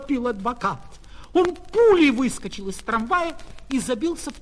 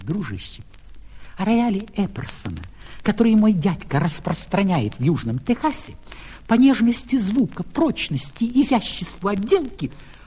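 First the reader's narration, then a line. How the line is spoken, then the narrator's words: Conductor whispering. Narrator (Russian): кондуктор наклонился к нему и шепнул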